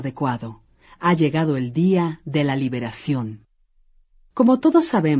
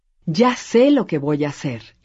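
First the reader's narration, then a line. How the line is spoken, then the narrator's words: Exclamation. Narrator (Spanish): exclamó ella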